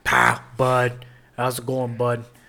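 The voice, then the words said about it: Put-on Pittsburgh Yinzer accent. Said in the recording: “he has that Yinzer accent”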